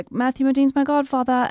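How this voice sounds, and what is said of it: Put-on British accent. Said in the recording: “Was this whole story just so you could do a British accent?”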